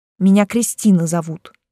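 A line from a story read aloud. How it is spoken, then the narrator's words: Grumbled mutter. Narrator (Russian): буркнула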